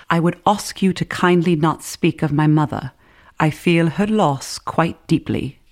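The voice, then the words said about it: Put-on British accent. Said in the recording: “I had to do the accent. I mean, I had to. It's a British play.”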